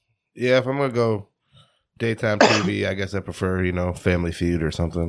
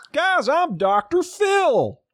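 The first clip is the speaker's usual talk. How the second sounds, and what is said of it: Slow Southern Dr. Phil impression. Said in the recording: “It's like a southern, it's like a slowed down foghorn leghorn.”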